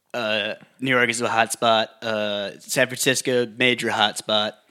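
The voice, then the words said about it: Imitates another person's voice. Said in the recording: “Can you do your Trump impression?”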